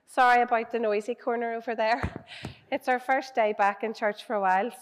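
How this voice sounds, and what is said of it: Strained, partly lost voice. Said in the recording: “My voice has gone a wee bit”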